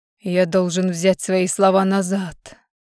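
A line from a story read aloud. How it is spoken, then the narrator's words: Hoarse. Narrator (Russian): хрипло произнес он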